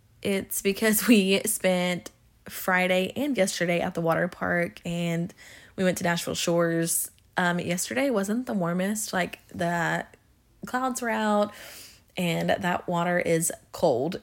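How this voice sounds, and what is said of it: Congested, hoarse, fading voice. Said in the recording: “I sound a little congested or if I sound like my voice is going out”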